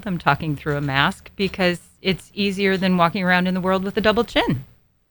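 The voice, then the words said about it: Muffled voice. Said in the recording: “I sound a little muffled,”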